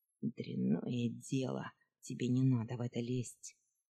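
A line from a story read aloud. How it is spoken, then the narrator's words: Gruff mutter. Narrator (Russian): буркнул Дуэздея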